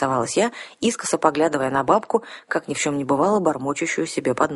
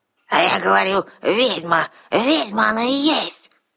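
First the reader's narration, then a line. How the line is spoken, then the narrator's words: Sudden old woman's bark. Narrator (Russian): Неожиданно рявкнула старуха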